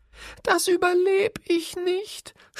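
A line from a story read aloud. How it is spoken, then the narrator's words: Sobbing. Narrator (German): schluchzte er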